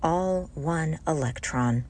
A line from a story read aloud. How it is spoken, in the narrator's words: whispering to him